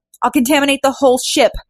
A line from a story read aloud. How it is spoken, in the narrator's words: yelled Fu